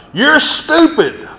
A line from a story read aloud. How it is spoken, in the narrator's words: one of the bankers suddenly hollered out